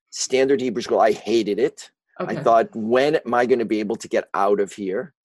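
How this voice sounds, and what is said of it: Chicago accent. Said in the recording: “I grew up in Chicago, as you may be able to tell from my accent, which I've never been able to shake.”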